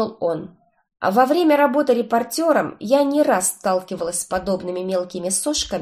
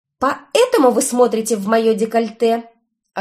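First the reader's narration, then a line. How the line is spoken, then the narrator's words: Snapping back. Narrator (Russian): огрызнулась я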